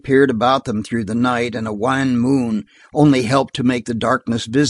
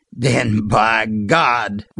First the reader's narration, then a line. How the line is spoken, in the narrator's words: growled Sliver Waldron